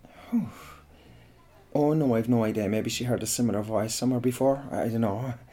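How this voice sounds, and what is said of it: Irish West Cork accent. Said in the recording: “I'm Irish, yeah. You can hear it in my accent when I talk. I'm an Irishman from West Cork.”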